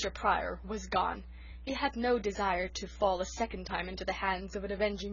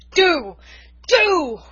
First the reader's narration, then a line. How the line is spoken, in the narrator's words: roared Norman